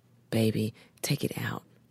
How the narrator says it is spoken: whispers

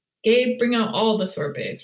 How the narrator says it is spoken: Harvey said

